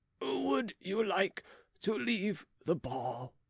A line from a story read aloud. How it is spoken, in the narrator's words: asked Monsieur de Rohan, in a feeble voice